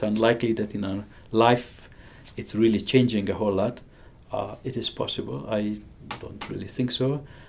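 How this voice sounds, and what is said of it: Hungarian accent. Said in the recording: “I have a strange accent. I grew up in Hungary.”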